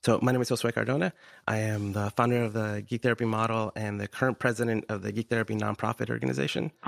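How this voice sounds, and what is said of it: Nasal, congested voice. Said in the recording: “Recovering from a cold. So sorry if I sound nasally.”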